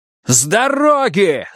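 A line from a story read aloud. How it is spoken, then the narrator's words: Loud shout. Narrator (Russian): заорал полицейский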